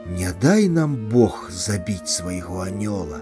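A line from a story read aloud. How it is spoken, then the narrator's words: Whisper. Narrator (Belarusian): Аляўціна прашаптала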